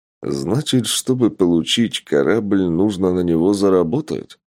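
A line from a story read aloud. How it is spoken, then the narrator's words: Plain. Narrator (Russian): спросил Тапок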